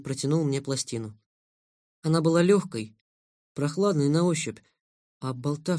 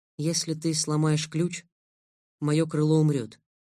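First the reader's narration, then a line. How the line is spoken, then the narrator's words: Calm explanation. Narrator (Russian): разъяснил Лэн спокойно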